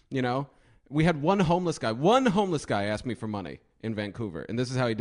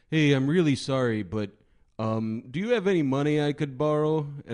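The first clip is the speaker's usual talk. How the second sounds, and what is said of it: Put-on Canadian accent. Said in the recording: “This is a Canadian accent, eh? ... Canadian Bud ... Bud tone”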